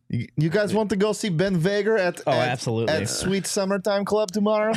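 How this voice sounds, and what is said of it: Usual voice. Nothing is said of it.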